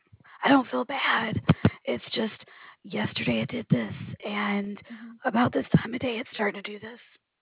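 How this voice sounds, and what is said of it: Slightly raspy, strained voice. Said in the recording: “my voice is going out ... it's getting a little raspy, probably just from so much talking”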